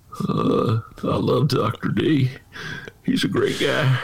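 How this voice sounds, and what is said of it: Imitates another person's voice. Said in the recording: “That's Bill Clinton.”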